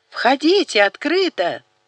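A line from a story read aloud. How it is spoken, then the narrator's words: Very loud yell. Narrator (Russian): заорал Даниэль так громко, словно разделяли их по меньшей мере 3 комнаты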